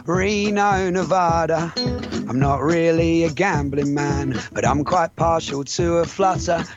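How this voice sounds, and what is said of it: English Essex accent. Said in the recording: “He can't quite place my accent ... he thinks that I'm Australian. I tell him I'm from England, from Essex to be precise.”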